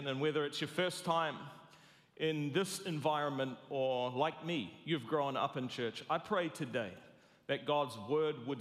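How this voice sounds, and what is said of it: New Zealand accent. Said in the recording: “I'm sorry for the accent ... I'm a New Zealander”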